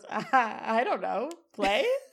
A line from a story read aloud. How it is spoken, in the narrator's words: Sean kind of giggles and says